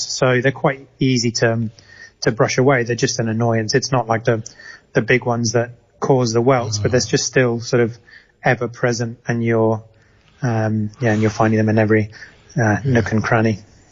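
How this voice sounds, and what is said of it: English home counties accent. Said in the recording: “your accent doesn't sound Mexican to me. Not Mexican. ... you sound like you belong somewhere in the home counties”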